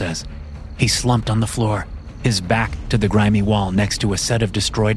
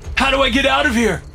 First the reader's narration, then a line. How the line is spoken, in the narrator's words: I shout, pain driving my panic